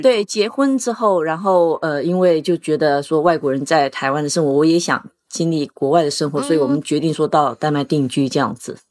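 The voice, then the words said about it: Accent not sounding native Taiwanese. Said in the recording (Chinese): “你是土生土长的台湾人吗？...因为你的口音听起来很不像。”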